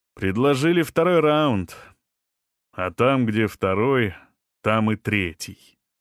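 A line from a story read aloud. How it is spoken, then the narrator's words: Grim smirking remark. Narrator (Russian): мрачно усмехнулся Серега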